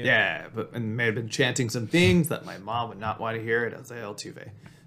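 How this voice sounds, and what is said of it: Slightly hoarse, strained voice. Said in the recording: “my voice is a little shot because I was booing a lot”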